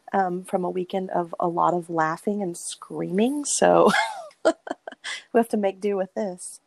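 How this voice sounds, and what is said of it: Hoarse, mostly lost voice. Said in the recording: “my voice is kind of gone”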